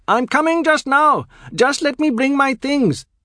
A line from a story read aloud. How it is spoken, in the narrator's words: the young doctor has entered the throes of a most unhippocratic excitement at the boatman's cry and shouts